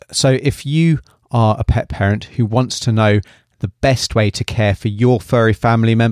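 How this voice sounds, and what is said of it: British accent. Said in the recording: “originally from the UK, as you can probably tell by my accent.”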